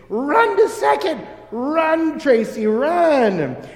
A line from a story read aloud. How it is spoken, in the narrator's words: the fans cried out to Tracy